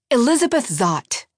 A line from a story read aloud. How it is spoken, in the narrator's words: she barked back